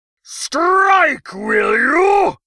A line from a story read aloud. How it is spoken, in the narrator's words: Podrang bellowed